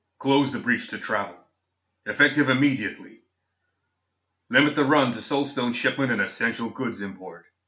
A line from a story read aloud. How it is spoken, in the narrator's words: barked irritably